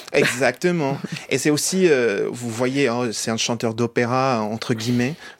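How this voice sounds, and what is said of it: Fluent French, slight American accent. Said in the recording (French): “vous parlez parfaitement français, on entend une pointe d'accent américain”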